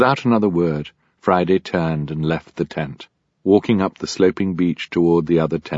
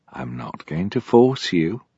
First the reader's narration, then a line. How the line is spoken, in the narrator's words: Ishmael said gently